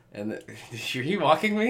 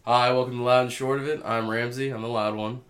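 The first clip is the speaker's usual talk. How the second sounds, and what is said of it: Robotic, put-on radio announcer voice. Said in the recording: “You did a robot voice. You're real spooky. ... do your best radio voice.”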